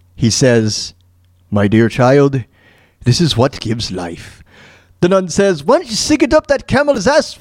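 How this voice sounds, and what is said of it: Put-on accent that slips. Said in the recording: “I know the accent. I know the voice totally changed at the end there. I lost it for some reason.”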